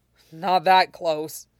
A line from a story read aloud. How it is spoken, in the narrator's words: countered, giving a hoarse laugh